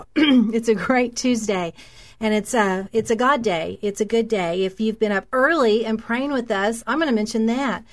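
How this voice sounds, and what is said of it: Hoarse, strained, losing voice. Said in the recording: “my voice is out.”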